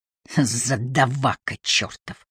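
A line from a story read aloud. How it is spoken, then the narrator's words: Hissed. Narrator (Russian): прошипел Воллер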